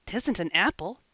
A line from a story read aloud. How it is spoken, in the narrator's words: exclaimed Davy